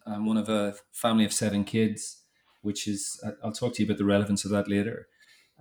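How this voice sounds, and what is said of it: Northern Irish accent. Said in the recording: “you probably tell by the accent, but I grew up in Northern Ireland”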